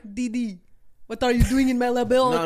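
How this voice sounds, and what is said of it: Cartoon character voice impression. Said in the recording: “how was that impression,... Really good... Very impressive”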